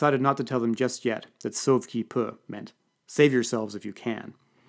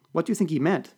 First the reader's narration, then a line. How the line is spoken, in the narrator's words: asked Natalia